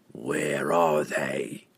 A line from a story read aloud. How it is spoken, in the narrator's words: the assassin growled, his patience worn away